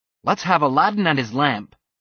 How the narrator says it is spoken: he snapped

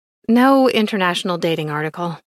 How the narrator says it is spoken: I sighed

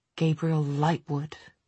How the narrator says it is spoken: he muttered to Will under his breath

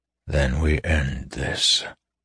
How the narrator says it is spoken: he said softly

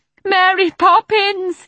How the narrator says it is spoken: wailed as he felt himself carried through the air

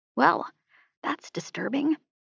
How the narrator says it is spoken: FM muttered beside me

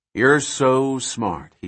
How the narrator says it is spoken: he says

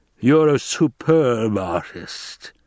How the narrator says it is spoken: the Baron growled

